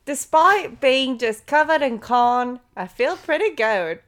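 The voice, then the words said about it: Put-on Australian accent. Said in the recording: “I want to hear you both do it in with an Australian accent.”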